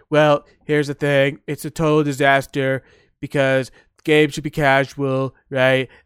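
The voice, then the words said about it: Imitates another person's voice. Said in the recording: “I'm trying to do my best Trump impression, but Trump, if Trump played Call of Duty, he'd be like this.”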